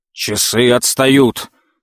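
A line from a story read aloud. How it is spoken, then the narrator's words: Sudden furious shout. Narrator (Russian): с внезапной яростью выкрикнул отец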